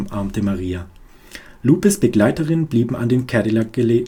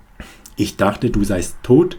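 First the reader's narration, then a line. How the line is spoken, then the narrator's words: Harsh, brutal tone. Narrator (German): sagte Maria schroff, mit einer Brutalität, die mich erstarren ließ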